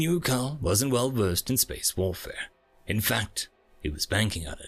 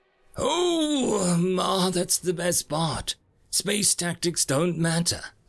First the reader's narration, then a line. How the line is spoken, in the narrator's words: Gull cackled